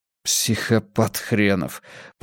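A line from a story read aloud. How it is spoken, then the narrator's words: Hissing from behind. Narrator (Russian): прошипел Ким Кульсио за его спиной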